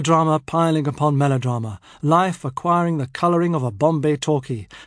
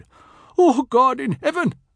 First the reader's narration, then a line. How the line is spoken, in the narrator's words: Reverend Mother cried out